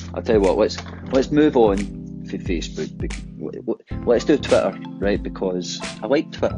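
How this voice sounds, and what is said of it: Glaswegian Scottish accent. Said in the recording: “obviously my accent is Glaswegian, but we have a problem with a hard T, a double T in English”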